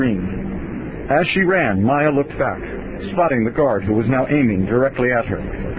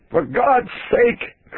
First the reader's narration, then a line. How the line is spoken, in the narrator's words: Curtis yelled toward him